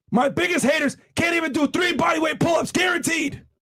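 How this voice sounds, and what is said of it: Strained, hoarse voice. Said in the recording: “I guess I'm losing my voice here”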